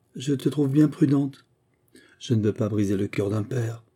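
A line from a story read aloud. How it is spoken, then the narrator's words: Sighing. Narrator (French): Adolphe … rêveur … il dit avec un soupir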